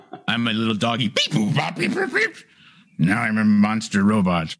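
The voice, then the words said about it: Playful robot dog character voice. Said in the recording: “That's a great impression.”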